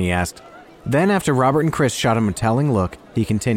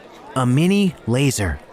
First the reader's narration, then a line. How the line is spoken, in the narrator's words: Rennie replied